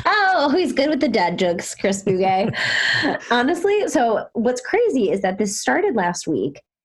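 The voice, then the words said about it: Sick-sounding voice. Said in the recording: “I'm a little sick... as you can tell by my voice”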